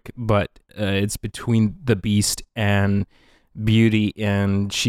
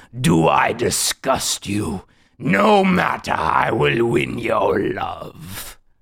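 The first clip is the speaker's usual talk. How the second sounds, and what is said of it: Imitates the Beast character's voice. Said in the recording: “Oh my God, that's such a good impression.”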